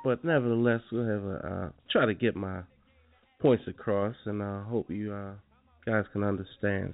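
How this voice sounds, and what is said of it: Unwell, strained voice. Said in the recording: “Excuse my voice. I'm trying to get over a little cold”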